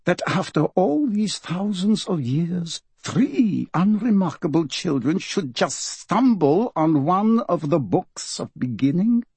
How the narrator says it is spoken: she said quietly

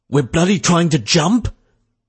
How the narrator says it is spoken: someone cried

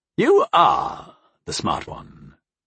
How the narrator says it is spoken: Greybeard said in a sly tone

